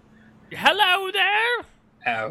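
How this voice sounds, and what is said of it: Old woman character voice. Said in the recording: “Your peasant Neil accent was... Oh, what's the old woman accent?”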